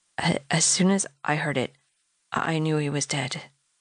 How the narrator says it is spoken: She said, her voice shaking

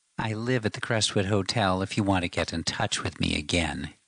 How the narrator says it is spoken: he sneered

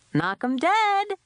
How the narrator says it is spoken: Dad says cheerfully

